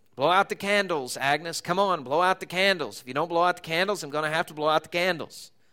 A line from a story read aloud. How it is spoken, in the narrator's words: Harry, the fat guy, gruffly mumbled